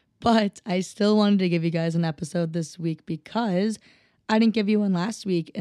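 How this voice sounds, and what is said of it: Rough, hoarse voice. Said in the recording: “you've probably noticed just from that intro that my voice is rough”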